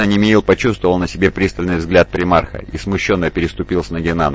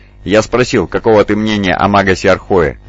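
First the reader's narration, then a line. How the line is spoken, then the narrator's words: Plain. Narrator (Russian): ответил Джонсон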